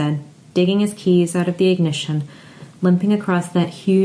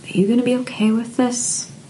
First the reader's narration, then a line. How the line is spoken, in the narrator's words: Brian asked, barely a whisper